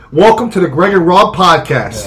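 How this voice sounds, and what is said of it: Announcer voice. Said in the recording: “Let's all use our announcer voice... Let's use our announcer voice.”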